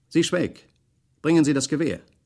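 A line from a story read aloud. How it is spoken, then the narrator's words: Calls out. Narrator (German): Leutnant Walk ruft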